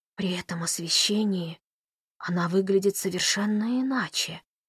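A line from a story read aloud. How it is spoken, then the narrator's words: Admiring whisper. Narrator (Russian): восхищенно прошептал он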